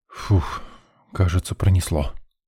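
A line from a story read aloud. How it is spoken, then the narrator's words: Relieved exhale. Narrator (Russian): выдохнул я, прислонившись к стене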